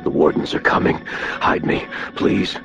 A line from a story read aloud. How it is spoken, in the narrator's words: Morgan, half his face covered in blood, gasped